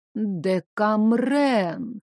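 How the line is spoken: Vague drawl. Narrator (Russian): неопределенно протянула бабуля

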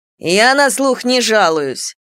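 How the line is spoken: Grumbled. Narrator (Russian): проворчала Мартина

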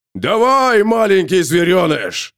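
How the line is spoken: Roaring. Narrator (Russian): проревел он

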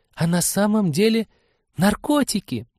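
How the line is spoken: Loud excited whisper. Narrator (Russian): Таким громким, восторженным шепотом уточнила Полина

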